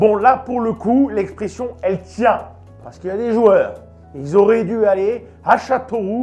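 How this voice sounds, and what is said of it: Usual voice. Nothing is said of it.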